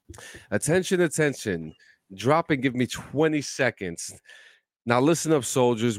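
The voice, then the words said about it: Exaggerated announcer radio voice. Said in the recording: “radio voice”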